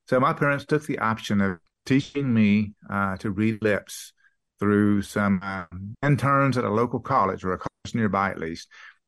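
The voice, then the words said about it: Texan accent, very clear enunciation. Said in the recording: “I even had my accent from one of those early years. An intern from South Houston... I picked up her accent... how clear your enunciation is”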